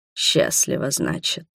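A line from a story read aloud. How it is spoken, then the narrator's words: Hoarse. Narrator (Russian): хрипло проговорил Адальхард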